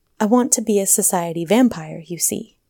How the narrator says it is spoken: she announced coolly

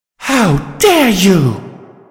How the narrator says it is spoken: Velvet Remedy screamed

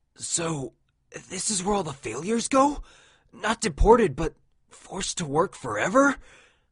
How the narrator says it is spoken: Orion sobbed quietly

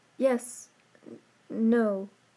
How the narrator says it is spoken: stammered Beauty, not wanting to lie or offend, for he seemed to almost be in pain

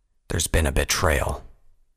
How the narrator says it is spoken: Vanguard growled

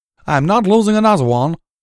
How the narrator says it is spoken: she shouted at the Alicorn

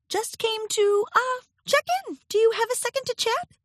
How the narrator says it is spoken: Her voice sounded high and nervous

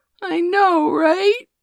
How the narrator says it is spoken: Maddie gasped

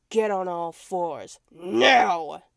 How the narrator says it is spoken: I growled

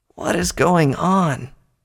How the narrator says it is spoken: Twilight groaned weakly

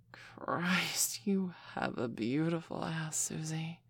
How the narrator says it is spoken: Michelle breathed softly

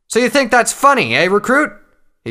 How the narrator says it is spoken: shouted

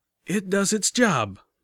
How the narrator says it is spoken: grunted

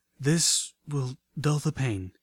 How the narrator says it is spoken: she panted slowly

